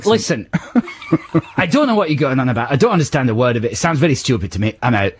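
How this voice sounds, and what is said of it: Put-on Scottish accent impression. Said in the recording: “your impression of that guy... Your Scottish accent... That's not a Scottish accent. That's specifically Duncan Ballantyne... I may have got his name wrong and the accent wrong.”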